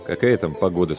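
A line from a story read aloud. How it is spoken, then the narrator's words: Plain. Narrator (Russian): спросил он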